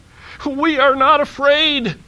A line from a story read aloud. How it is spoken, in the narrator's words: screamed Frog and Toad at the same time